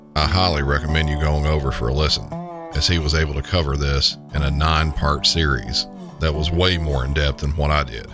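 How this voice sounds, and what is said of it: Deep Southern American accent. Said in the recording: “my usual deep Southern accent”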